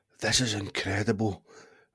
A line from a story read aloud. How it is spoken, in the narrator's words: breathed Hogwarts